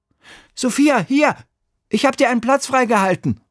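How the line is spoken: Calling out. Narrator (German): ruft Emil

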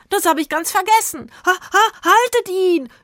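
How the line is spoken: Shouting. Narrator (German): schrie er

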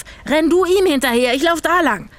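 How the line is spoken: Shouted. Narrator (German): schrie Zora

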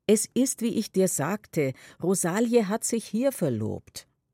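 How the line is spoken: Loud, firm repetition. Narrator (German): sehr laut und bestimmt wiederholt sie noch einmal

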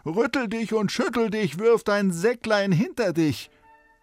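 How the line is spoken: Called out. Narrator (German): Der rief

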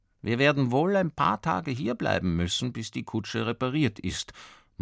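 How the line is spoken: Father murmuring. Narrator (German): murmelt der Vater vor dem Schlafengehen

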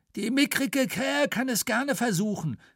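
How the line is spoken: Called out. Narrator (German): rief

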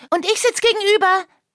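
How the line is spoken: Calling out. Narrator (German): rief Lucia

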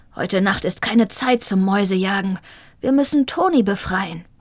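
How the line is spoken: Growled. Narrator (German): knurrte Shiva

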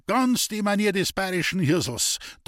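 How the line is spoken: Thundering at someone. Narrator (German): donnerte an

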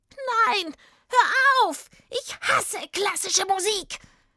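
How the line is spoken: Witch screaming. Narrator (German): Als die Hexe diese Töne hörte, schrie sie

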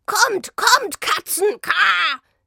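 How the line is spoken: Croaking. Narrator (German): krächzte er

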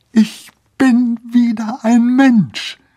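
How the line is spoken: Joyful shout. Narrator (German): schrie Lorenz und warf jubelnd

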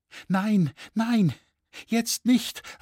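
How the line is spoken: Anxious cry. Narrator (German): rief Margarete ängstlich

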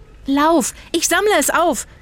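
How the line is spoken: Shouted. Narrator (German): schrie Zora

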